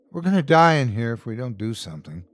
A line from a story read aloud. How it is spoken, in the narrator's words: The dad from 1E said sadly